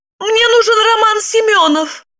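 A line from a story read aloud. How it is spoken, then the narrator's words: Excited exclamation. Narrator (Russian): Волнуясь, воскликнула Липочка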